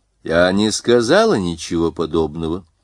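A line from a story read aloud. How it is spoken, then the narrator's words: Dry correction. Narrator (Russian): сухо поправила американка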